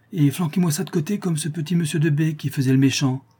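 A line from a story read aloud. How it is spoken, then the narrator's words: Exclaimed. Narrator (French): s'écria Jasmin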